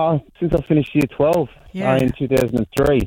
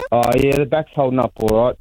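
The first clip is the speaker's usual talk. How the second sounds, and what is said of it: Sarcastic tone. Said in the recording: “being sarcastic. ... I've been very sarcastic”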